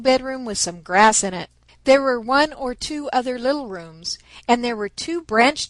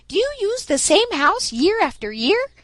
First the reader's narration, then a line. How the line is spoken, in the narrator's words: piped up Striped Chipmunk